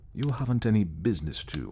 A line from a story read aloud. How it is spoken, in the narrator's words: I said in a quiet voice